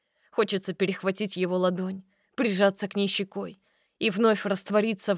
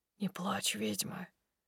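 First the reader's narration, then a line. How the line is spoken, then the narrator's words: Barely audible whisper. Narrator (Russian): шепчет едва слышно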